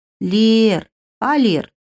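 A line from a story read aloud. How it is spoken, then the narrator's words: Drawn-out call. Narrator (Russian): протянула Аш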